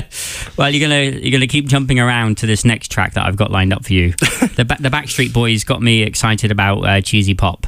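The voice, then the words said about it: English accent. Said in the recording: “I'm English, as you might have guessed by the accent.”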